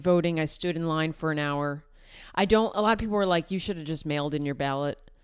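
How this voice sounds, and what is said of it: Nasal upstate New York accent. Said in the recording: “my like upstate New York accent come out when I say ballot ... That's so upstate New York ... We're very nasally people”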